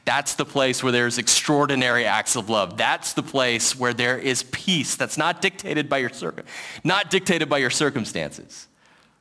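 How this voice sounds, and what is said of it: Breathless, running out of breath. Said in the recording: “Sorry, I ran out of breath there.”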